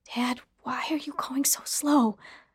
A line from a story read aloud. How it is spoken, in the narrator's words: I whispered